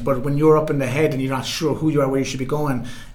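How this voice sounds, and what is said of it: Thick Irish accent. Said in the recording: “hear his Irish accent ... Get the tick Irish accent ... It's a tick Irish accent”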